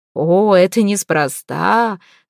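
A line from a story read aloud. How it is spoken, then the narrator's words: Laughing. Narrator (Russian): рассмеялся предводитель Богомилов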